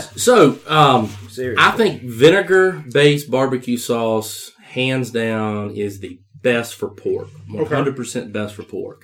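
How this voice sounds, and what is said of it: South Carolina accent. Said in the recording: “you're from South Carolina. You're from Union. You can hear it in the accent.”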